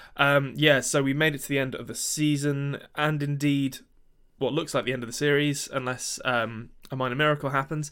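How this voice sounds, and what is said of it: Croaky, just-woken-up voice. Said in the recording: “my voice is a bit croaky. It's Sunday morning and I've just woken up”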